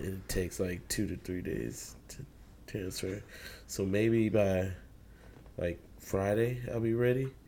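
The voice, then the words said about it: Hoarse voice. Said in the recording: “My voice is a little hoarse today”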